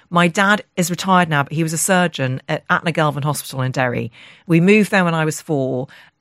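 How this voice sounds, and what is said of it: Cut-crystal polished English accent. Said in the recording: “your cut crystal accent”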